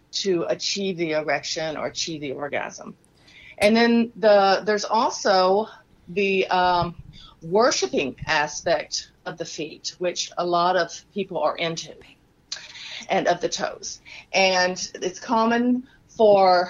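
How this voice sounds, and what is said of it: Texas accent. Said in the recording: “my Texas accent coming out”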